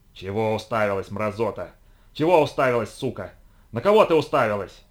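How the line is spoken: Hoarse furious snarling. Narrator (Russian): хрипло рычал взбешенный сумеречник

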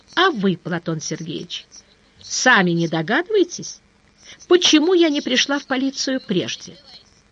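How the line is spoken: Soft objection. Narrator (Russian): Сыщик мягко возразил

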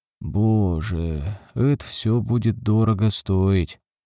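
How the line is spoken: Sighing. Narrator (Russian): Крафт вздохнул

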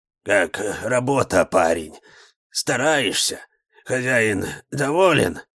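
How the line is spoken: Weak hoarse choked father's voice. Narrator (Russian): Голос у папы был слабый, хриплый, как будто что-то застряло в горле

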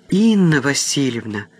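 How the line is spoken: Astonished exclamation. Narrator (Russian): воскликнула пораженная Катя

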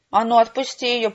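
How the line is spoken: Growl through clenched teeth. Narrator (Russian): прорычал он, стиснув зубы

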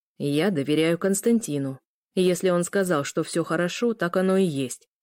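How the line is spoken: Cold tone. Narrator (Russian): произнес Арнар холодным тоном

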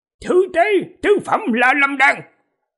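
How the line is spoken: Shouted. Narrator (Vietnamese): Âu Dương Tử quát

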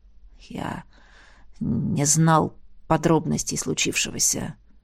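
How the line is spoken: Quiet. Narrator (Russian): тихо ответил Вильнара

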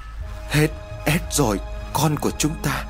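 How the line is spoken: Woman wailing piteously. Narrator (Vietnamese): bà rên rỉ thảm thiết

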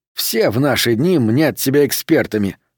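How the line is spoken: Grumbled in thought. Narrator (Russian): мысленно проворчал он

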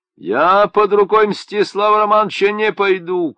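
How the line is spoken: Shouting. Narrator (Russian): кричали

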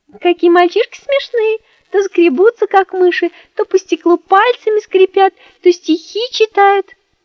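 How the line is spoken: Giggling. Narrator (Russian): Леночка стала хихикать и говорит

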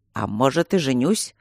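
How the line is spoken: Amused snort. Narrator (Russian): хмыкнул Мартин

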